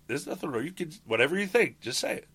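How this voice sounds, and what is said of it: Heavy Russian Jewish accent. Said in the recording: “In a heavy Russian accent ... a Russian Jewish accent.”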